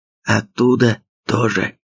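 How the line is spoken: Whisper. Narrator (Russian): прошептал пленный

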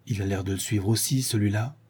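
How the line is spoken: Low voice. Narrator (French): Sholmes dit à voix basse

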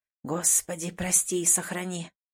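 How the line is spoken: Muttered into beard. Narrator (Russian): пробормотал себе в бороду

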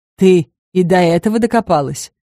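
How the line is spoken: Joyless snort. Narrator (Russian): невесело хмыкнул Грис

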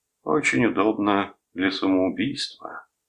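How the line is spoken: Gloomy. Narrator (Russian): мрачно произнес он

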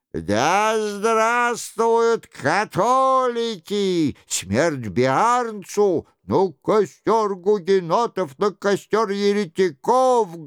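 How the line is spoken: Crowd shouting loudly. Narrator (Russian): громко кричала толпа

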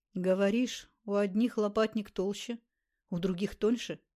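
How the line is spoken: Plain. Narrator (Russian): спросил он

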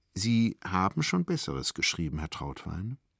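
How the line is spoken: Hesitant. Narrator (German): setzte sie etwas zögernd hinzu

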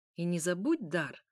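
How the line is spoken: Snorting. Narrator (Russian): хмыкнул

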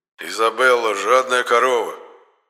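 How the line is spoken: Gloomy statement. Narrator (Russian): мрачно констатировал Енох

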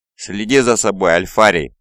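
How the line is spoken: Growl. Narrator (Russian): прорычал

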